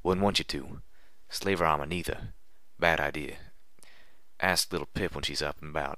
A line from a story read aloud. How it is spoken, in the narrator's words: Calamity whispered firmly